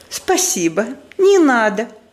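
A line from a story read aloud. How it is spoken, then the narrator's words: Sugary, cloying tone. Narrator (Russian): слащавым тоном отвечает мадам Резо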